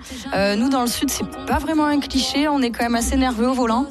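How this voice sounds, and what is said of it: Southern French accent. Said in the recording (French): “je suis sudiste, je pense que ça s'entend mon petit accent.”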